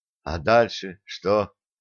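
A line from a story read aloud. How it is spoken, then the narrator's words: Quiet question. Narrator (Russian): помощник командира капитан-лейтенант Сомов тихо спросил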